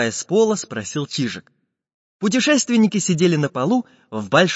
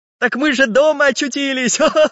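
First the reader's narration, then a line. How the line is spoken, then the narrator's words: Cheerful bouncing laughter. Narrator (Russian): Весело подпрыгивая на пружинках, засмеялся мастер Самоделкин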